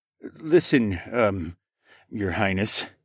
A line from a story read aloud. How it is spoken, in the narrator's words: the soldier muttered, and his tone was more than doubtful, like he didn't believe the blonde's royal status